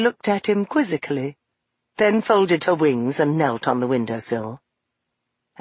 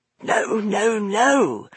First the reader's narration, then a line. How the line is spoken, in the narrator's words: him muttering crossly to himself